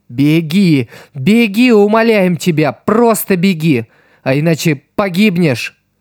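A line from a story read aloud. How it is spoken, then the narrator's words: Frantic wailing chorus. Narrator (Russian): Тело, душа и инстинкты хором завопили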